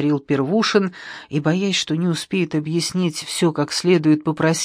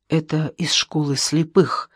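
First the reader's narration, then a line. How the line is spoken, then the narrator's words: Whispered. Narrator (Russian): шепотом произнес Первушин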